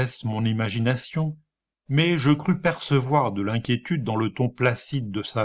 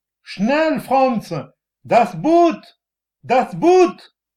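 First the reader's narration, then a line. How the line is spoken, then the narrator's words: Shouted. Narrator (French): cria une voix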